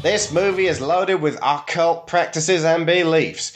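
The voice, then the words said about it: Put-on Southern US accent. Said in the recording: “I'm going to have to do my southern accent for this one.”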